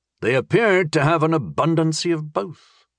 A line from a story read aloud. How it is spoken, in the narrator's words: Astaroth noted sleepily